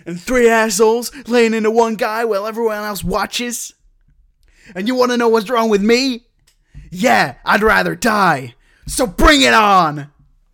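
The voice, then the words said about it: Weak put-on American accent. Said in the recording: “do the voice? You've not got a very good American impression.”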